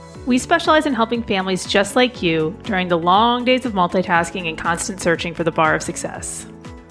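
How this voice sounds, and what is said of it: Polished public-radio announcer voice. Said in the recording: “NPR voice”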